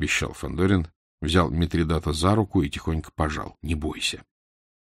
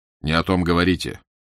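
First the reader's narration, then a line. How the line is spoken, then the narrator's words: Menacing sharp shout. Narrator (Russian): грозно прикрикнул на него Фандорин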